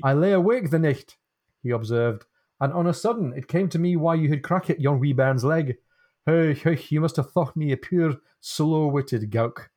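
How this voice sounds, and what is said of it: Deliberately bad Morningside Scottish accent. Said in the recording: “I'm going to try and read this more or less phonetically, and I'm going to lapse into a very bad kind of Morningside-ish accent because I won't be able to help myself”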